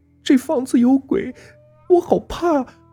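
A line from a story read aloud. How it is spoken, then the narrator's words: Crying. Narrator (Chinese): 阿丽哭道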